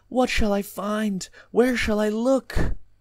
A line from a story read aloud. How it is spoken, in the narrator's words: Eagerness rendered me forgetful of the secrecy I should preserve, and I cried aloud